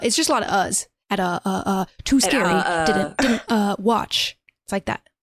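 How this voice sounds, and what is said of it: Jeff Goldblum impression. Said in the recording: “do a Jeff Goldblum impression?”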